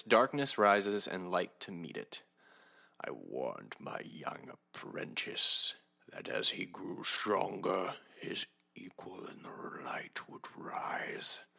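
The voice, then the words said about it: Poor Snoke impression. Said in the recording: “terrible Snoke impression.”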